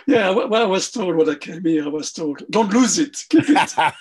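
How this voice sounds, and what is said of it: French Parisian accent. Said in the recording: “your accent places you as you're French or from Belgium? ... I'm French. ... I was born in Paris. ... I retained my original accent. ... Your fabulous Parisian accent”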